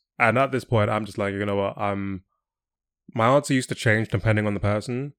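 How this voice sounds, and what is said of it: English accent. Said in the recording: “if they hear my accent, they'll be like, oh, are you from England?”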